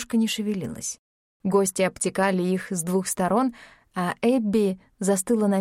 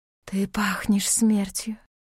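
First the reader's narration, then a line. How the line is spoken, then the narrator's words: Close hiss. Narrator (Russian): прошипела прямо в лицо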